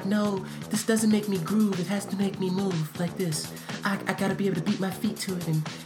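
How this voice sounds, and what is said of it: Imitates another person's voice. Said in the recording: “Your Mike impersonation is actually pretty good.”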